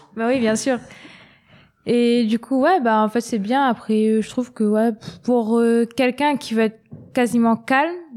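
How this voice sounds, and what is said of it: Slight Réunion French accent. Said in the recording (French): “De la Réunion ... petit accent et tout”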